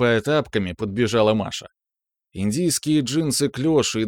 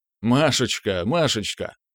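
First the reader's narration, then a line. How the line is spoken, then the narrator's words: Laughing reply. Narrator (Russian): Отвечал я, смеясь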